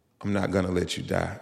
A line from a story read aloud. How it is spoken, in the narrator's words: in the most assuring voice, she said